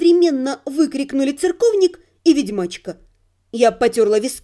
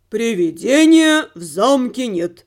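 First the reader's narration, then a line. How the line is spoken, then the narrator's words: Deep voice, emphatic. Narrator (Russian): пробасил церковник, сделав особое ударение на слове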